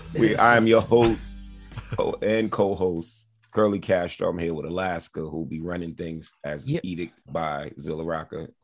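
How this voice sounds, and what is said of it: Worn, recovering voice. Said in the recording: “forgive my voice. I'm just recovering.”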